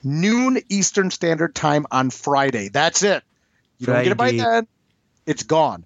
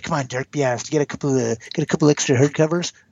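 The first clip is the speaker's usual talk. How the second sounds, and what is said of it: Slimy pushy friend voice. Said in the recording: “your slimy friend impression.”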